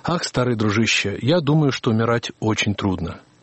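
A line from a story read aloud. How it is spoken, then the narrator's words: Awkward uncertain mumble. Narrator (Russian): Не зная, что сказать, Ситон пробормотал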